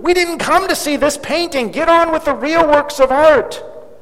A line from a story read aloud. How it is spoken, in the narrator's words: another voice shouted angrily